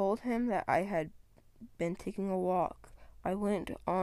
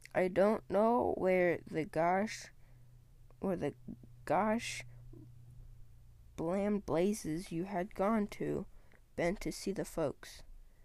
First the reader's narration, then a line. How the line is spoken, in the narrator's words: said slowly